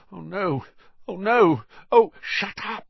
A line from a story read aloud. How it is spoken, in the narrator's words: said Harry frantically